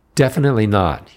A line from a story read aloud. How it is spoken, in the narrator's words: blurted, then hemmed his words